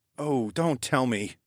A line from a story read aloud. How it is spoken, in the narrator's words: I sighed